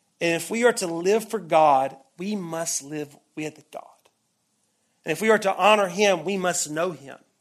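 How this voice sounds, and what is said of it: Deep South American accent. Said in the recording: “you probably can hear the accent. I grew up in the Bible Belt. I grew up in the Deep South.”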